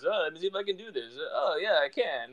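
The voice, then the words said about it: Imitation of basketball player Keegan. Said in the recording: “I always do my Keegan voice, my Deuce Mason Keegan voice”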